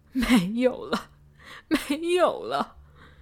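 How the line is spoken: Heart-rending wailing. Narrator (Chinese): 撕心裂肺的哭嚎着

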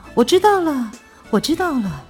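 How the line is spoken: Excited shouting. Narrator (Chinese): 边喊着

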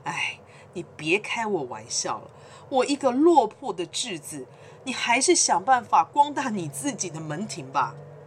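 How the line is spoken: Wry smile. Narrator (Chinese): 这艺人啊，还苦笑的说

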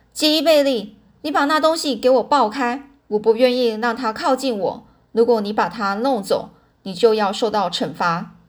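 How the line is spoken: Loud shouting. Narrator (Chinese): 妈妈大声的嚷着说

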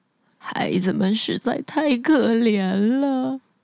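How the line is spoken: Mumbling to himself. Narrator (Chinese): 樵夫喃喃自语地说

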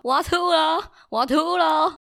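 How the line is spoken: Loud yowling announcement. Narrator (Chinese): 它会很大声的大叫，昭告天下，跟大家讲说

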